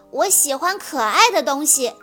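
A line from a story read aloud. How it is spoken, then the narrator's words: Sudden loud shout. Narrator (Chinese): 殷然突然大声喊起来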